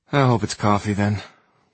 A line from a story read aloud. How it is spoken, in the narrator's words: Simon said with a wistful sigh of his own